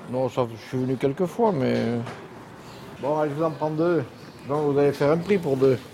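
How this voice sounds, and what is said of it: Regional Belgian French accent. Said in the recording (French): “Avec mon accent, on va tout de suite voir d'où je viens. ... Pays Noir”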